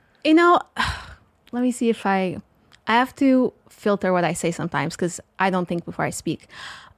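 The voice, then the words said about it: Portuguese-accented English. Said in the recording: “So the accent we're hearing is Portuguese, right? ... Yeah, it's from Portugal.”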